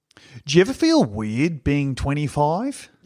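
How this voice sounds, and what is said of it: Put-on Australian accent. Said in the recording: “very philosophically, but in a very Australian accent”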